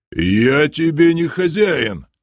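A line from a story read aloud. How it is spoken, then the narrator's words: Guard yelling. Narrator (Russian): заорал стражник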